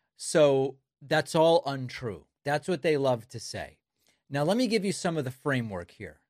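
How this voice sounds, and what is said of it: Usual voice. Nothing is said of it.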